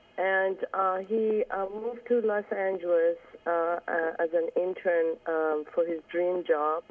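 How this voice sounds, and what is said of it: Voice affected by a cold. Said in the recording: “I'd like to apologize about my voice. I have a kind of a cold right now.”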